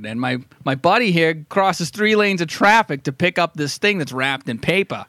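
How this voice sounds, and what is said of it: Put-on Boston working-class accent. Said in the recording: “doing a good voice ... these guys truly fell out of Good Will Hunting or The Departed”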